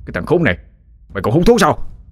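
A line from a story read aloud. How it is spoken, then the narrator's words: Irritated shout. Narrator (Vietnamese): Tên giang hồ lại bực tức quát lên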